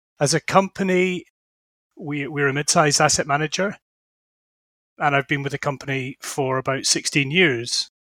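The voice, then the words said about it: Scottish accent. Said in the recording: “as you can probably tell from my accent, I'm Scottish”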